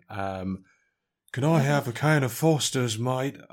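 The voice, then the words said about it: Put-on Australian accent, wheezy. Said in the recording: “would there be an Australian Nicolas Cage accent? ... Just feels like I'm trying to do the impression of an Australian who has asthma.”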